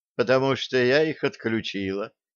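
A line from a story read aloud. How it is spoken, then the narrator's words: Calm. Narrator (Russian): спокойно сказала девушка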